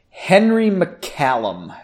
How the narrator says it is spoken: she said slowly

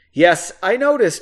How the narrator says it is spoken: he said, trying to suppress a laugh

